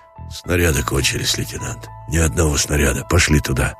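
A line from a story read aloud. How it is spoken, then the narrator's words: Gloomy and quiet. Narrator (Russian): говорил угрюмо и тихо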